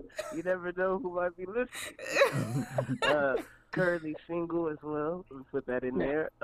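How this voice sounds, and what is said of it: Usual voice. Nothing is said of it.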